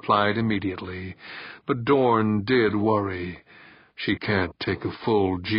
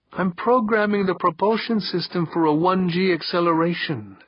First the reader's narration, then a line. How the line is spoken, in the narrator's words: Alverda was saying, her voice tight but calm